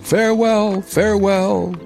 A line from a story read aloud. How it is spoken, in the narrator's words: cried the prince and princess